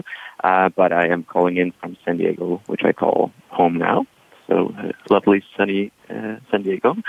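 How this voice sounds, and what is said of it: Danish accent. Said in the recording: “I'm originally from Denmark. You might hear that accent come through.”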